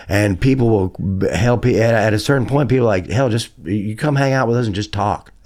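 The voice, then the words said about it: Southern American accent. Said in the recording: “people respond to my accent. And having a southern accent in LA”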